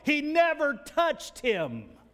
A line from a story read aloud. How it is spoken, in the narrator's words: hear this across the whole gymnasium, the coach will yell